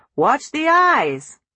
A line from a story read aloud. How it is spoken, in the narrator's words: Solly called out